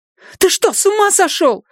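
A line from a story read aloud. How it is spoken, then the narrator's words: Alarmed shout. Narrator (Russian): закричала Люми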